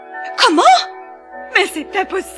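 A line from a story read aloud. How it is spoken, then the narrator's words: Incredulous, jealous joint exclamation. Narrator (French): s'écrièrent les deux demi-sœurs, à la fois incrédules et vertes de jalousie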